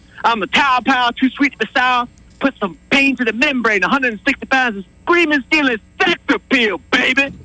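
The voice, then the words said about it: Dusty Rhodes impression. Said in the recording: “This is Dusty Rhodes”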